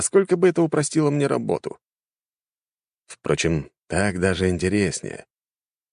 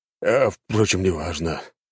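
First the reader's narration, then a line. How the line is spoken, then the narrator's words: Man's sigh. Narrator (Russian): вздохнул мужчина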